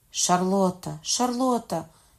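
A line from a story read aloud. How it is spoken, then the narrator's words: Cried out. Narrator (Ukrainian): скрикнув Генріх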